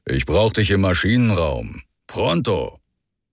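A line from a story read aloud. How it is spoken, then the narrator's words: Growling. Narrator (German): Hubert knurren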